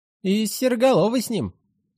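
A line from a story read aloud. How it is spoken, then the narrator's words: Uncertain addition. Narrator (Russian): неуверенно добавил Пышка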